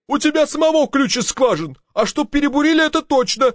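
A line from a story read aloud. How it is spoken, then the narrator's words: Shouting. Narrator (Russian): кричал инженер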